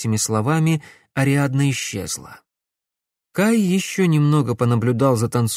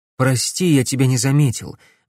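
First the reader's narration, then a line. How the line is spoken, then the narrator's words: Breathless. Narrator (Russian): выдохнул Грановский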